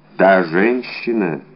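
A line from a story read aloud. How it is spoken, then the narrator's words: Muffled, barely audible question. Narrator (Russian): переспросил Атос таким глухим голосом, что Д'Артаньян едва расслышал его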